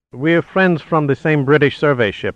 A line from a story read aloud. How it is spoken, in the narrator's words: answered Salazar